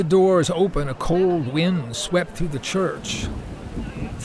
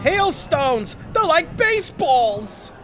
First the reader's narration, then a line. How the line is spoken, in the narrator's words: a man yelled